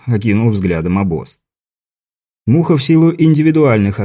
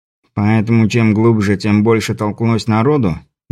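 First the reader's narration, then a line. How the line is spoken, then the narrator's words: Skeptical snort. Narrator (Russian): Муха скептически хмыкнул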